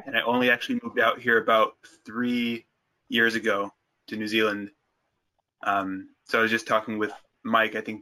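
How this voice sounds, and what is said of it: American West Coast accent. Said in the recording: “I'm not a native New Zealander. It's the accent, you can probably tell. I'm from the West Coast, over in Oregon.”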